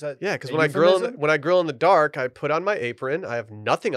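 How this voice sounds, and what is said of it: Usual voice. Nothing is said of it.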